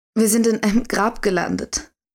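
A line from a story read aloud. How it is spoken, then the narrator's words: Hoarse croak. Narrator (German): krächzte Cynthia mit heiserer Stimme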